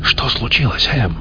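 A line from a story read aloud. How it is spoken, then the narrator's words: Anxious whisper. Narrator (Russian): тревожно зашептал Донахью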